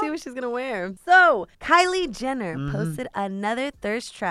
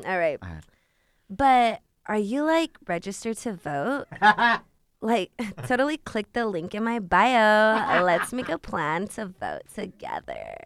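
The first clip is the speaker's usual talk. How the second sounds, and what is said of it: Calabasas valley-girl voice, slow drawl. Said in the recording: “in your best Kylie Jenner voice ... My Calabasas accent ... Get your Calabasas in, girl ... It's like a mixture of like talking and burping slowly”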